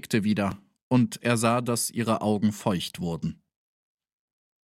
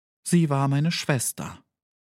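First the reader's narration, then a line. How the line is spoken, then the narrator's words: Calm reply. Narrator (German): entgegnete sie ruhig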